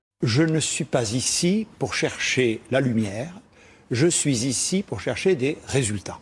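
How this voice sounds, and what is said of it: Gascon southwestern French accent. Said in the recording (French): “Jean Castex, vous avez un accent, un bel accent gascon, région du sud-ouest”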